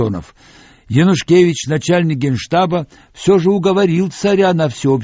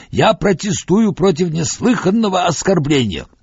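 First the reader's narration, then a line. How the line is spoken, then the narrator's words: Strained hoarse shout. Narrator (Russian): Пурталес натужно и хрипло прокричал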